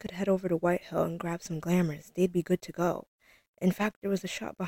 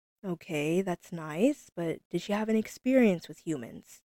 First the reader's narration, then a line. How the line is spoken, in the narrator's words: Doris laughed